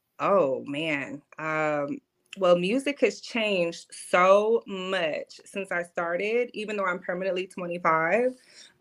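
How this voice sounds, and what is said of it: Cornbread fed accent. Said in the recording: “my cornbread fed accent”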